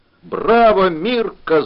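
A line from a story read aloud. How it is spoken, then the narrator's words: Breathless fat man, shrieking laughter. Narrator (Russian): задохся толстый грек завизжал от хохота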